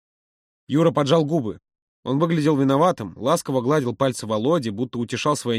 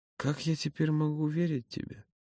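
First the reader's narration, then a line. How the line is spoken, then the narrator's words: Quiet reply. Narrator (Russian): Юра ответил так же тихо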